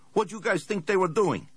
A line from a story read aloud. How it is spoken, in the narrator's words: Lucio Salazar barked into his cellular